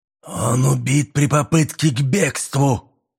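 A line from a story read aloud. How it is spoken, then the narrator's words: Hoarse voice. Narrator (Russian): хриплым голосом произнес Шкода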